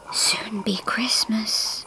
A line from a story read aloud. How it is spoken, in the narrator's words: he whispered in her ear